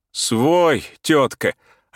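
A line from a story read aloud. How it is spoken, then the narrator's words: Laughing reply. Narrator (Russian): ответил Турбин с хохотом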